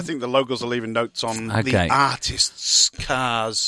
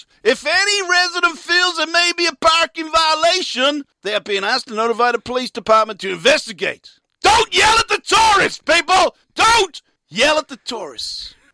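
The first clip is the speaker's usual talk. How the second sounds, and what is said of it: Exaggerated put-on Arizona accent. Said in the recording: “your ridiculous accent is so bamboozling ... It's a genuine Arizona accent ... The delivery was vigorous”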